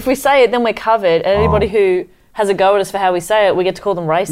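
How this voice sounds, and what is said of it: Australian accent. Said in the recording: “our Australian accent”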